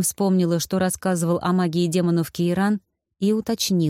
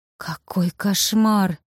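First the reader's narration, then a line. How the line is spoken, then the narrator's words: Breathless. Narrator (Russian): выдохнула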